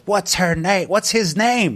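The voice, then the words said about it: Heckler voice, slightly scary accent. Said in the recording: “This quite kind of slightly scary accent.”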